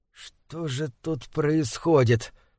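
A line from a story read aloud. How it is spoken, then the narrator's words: Trembling question. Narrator (Russian): спросил он дрожащим голосом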